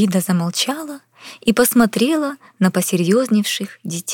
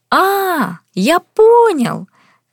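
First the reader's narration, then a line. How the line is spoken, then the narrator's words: Shout. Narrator (Russian): закричал Максим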